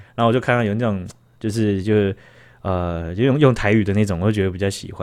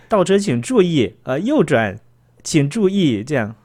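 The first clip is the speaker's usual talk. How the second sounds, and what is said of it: Mock mainland Chinese accent announcement. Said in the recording (Chinese): “原本是那个中国口音的那个呃”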